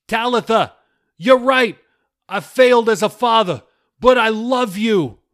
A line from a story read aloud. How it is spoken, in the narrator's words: Billy cried